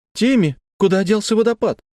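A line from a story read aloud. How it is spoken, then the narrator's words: Shouted. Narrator (Russian): закричал Лекси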